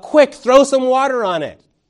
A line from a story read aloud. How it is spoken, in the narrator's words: you yell out